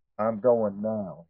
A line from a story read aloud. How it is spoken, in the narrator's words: said calmly